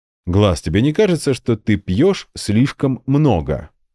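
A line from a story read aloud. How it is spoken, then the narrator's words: Plain. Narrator (Russian): спросил я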